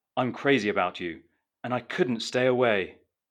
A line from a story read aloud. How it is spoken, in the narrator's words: Rick exclaimed in an almost cringeworthy way